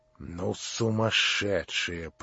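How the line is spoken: Mutter. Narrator (Russian): пробормотала Лизавета Прокофьевна

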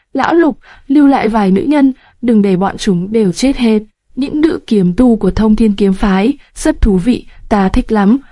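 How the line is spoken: Loud laughing speech. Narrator (Vietnamese): Thần Nhị Quân cười lớn, nói

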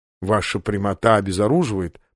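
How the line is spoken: Muttered. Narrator (Russian): пробормотал Сандерс

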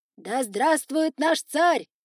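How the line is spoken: Crowd of foxes yelling. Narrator (Russian): заорали все лисы

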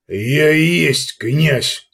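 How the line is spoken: Growling. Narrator (Russian): прорычал Ерга

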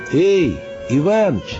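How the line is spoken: Shouting into distance. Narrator (Russian): прокричал он куда-то вглубь

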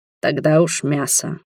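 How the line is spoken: Gruff grunt. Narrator (Russian): буркнул он

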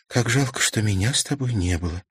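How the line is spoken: Quiet. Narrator (Russian): сказала она тихо

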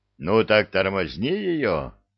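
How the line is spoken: Growled reply. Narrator (Russian): рыкнул в ответ Простаков

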